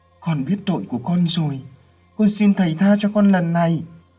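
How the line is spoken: Frantic pleading demon. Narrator (Vietnamese): Con quỷ kia biết là khó thoát liền rối rít cầu xin

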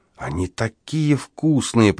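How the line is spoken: Muttered. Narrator (Russian): пробормотала Эпини

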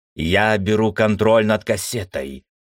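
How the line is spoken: Commanding declaration. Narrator (Russian): приказным тоном заявил Пердик

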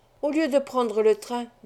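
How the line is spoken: Plain. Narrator (French): dit-il

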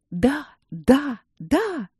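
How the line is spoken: Mirrors whispering together. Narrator (Russian): зашептали зеркала

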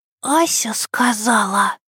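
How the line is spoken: Whispered into ear. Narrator (Russian): шепнула ему на ухо

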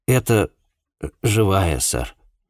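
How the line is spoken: Uncertain reply. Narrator (Russian): неуверенно ответил он

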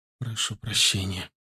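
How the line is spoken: Tearful mumble. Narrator (Russian): пробормотала она, едва сдерживая слезы

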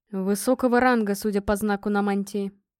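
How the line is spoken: Grim reply. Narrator (Russian): мрачно ответил Гром

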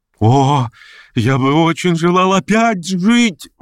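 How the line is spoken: Exclaimed with surging energy. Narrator (Russian): воскликнул он с чрезвычайным приливом энергии

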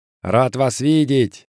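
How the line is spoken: Shout, tall man. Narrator (Russian): крикнул высокий

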